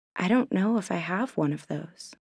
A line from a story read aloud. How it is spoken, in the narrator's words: she whispered